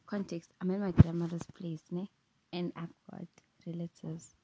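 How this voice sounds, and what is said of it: Whispering. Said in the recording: “I'm whispering right now. Because I've realized I was being loud.”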